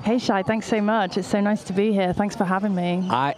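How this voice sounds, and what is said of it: British accent. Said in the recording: “your marvelous accent... the Brit pack”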